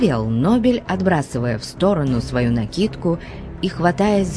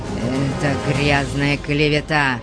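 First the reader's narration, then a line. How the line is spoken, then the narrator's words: Hoarse wheeze. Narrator (Russian): прохрипел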